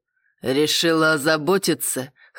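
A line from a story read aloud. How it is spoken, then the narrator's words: Man snorting. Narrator (Russian): хмыкнул мужчина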